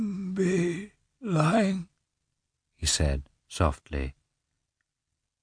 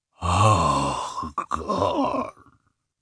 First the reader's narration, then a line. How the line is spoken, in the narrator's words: he muttered with a heavy sigh